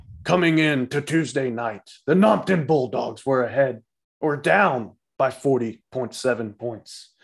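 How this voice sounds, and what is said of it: Boomer character voice. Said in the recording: “doing my boomer voice”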